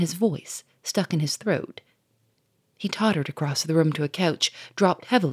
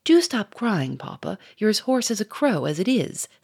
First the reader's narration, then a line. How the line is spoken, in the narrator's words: said Germaine impatiently